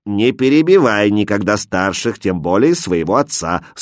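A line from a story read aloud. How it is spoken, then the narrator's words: Stern rebuke. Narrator (Russian): строго остановил ее калиф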